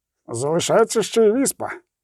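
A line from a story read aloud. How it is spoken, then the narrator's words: Grumble. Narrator (Ukrainian): буркнув Золтан Хіве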